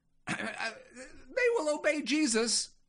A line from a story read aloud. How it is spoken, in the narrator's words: I squeaked